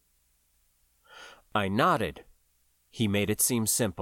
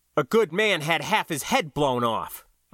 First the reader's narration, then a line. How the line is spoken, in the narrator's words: I snapped